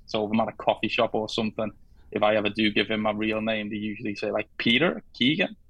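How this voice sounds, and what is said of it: Scouse Liverpool accent. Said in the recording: “my Scouse accent”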